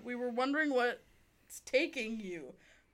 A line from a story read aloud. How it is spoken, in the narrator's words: Gerard laughed